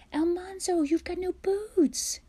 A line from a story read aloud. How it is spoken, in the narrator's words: she cried